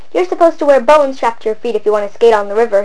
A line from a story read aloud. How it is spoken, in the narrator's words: he laughed